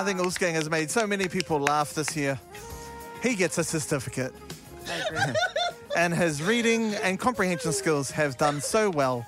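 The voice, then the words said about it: Prim schoolteacher assembly voice. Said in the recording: “You're talking like a teacher, that's why. You're talking like someone, you're at assembly. ... teacher thing.”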